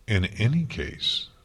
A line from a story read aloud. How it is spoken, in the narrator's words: haughtily